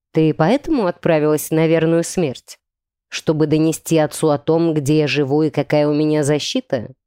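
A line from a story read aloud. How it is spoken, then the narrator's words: Gloomy inquiry. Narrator (Russian): мрачно осведомился Видар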